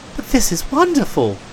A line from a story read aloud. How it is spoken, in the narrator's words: exclaimed Tim Tom in amazement